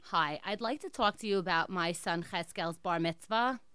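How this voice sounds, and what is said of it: Put-on Jewish accent. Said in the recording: “I'm going to be in an accent, in some Jewish accent ... That accent is so disturbing.”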